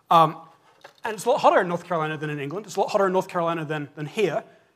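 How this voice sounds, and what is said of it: British accent. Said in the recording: “if you've heard my voice, my accent so far, you're like, North Carolina? No, that's not where your voice is from, and you're right, kind of. Originally from the UK”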